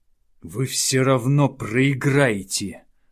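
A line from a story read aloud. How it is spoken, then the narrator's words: Growled. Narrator (Russian): рыкнул Хауда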